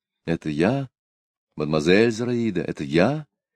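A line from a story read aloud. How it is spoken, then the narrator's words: Pleading, in French. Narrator (Russian): сказал он по-французски просящим тоном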